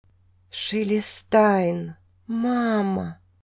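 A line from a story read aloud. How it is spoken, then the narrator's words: Dry-lipped whisper. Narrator (Russian): Сухие губы прошептали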